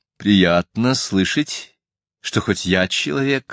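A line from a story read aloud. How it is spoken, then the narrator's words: Laughing. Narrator (Russian): рассмеялась Эленор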